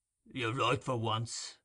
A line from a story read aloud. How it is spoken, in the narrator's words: replied Sikes gruffly